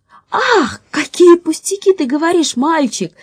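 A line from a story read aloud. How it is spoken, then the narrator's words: Exclaimed. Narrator (Russian): воскликнула Женя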